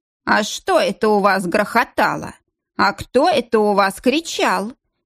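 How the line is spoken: Drawling nasal voice. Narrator (Russian): Тянул своим гнусавым голосом

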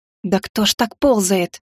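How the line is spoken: Whispered. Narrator (Russian): зашептала я

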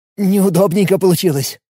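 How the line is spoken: Sigh. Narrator (Russian): вздохнул

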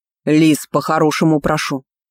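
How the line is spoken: Growled. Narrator (Russian): прорычал Астон

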